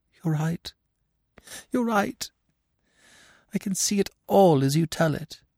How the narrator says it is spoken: in a choked voice she said

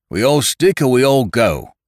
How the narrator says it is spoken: he cried out

